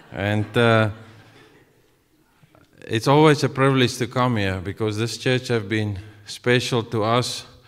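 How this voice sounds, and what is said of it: South African accent. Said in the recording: “my accent. I'm from the deep south, like very deep south, South African deep.”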